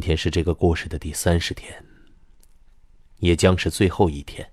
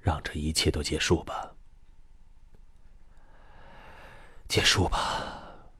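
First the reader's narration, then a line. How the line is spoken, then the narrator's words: Soft melancholy sigh. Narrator (Chinese): 心底涌起一股莫名的惆怅来，轻轻叹了一声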